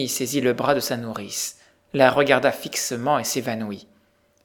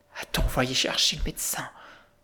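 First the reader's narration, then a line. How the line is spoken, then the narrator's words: Murmur choked with emotion. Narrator (French): murmura Sophie d'une voix que l'émotion étranglait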